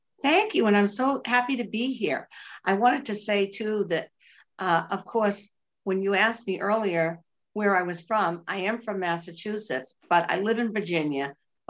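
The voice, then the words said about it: Boston accent. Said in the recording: “nobody could miss my Bostonian accent.”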